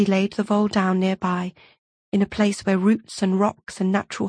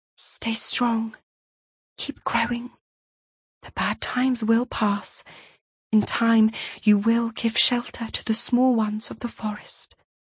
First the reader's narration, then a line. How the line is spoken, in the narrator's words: She whispered